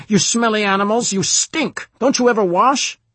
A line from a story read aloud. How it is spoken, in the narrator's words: A nearby jackboot was shouting